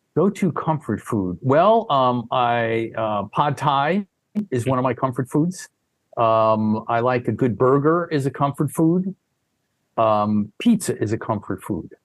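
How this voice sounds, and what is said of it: Northeastern US accent. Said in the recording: “I hear the Northeast accent”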